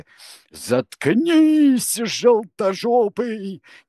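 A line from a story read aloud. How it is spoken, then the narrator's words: Wild yell. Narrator (Russian): дико завопил друг Цвирик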